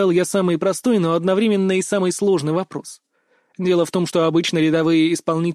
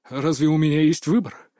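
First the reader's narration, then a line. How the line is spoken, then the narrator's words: Through gritted teeth. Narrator (Russian): процедил он сквозь зубы, осознавая, что пути к отступлению нет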